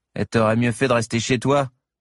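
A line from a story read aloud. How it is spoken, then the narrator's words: Curt, dry. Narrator (French): répondit sèchement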